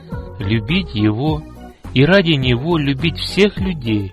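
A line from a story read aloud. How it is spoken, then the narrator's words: Plain. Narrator (Russian): ответил отец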